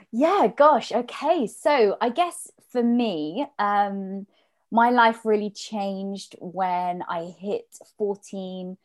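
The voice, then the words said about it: British accent. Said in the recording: “your beautiful British accent”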